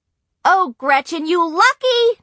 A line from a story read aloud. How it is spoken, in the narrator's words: Nancy shrieked